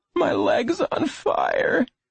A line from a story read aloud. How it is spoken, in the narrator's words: Lenny moaned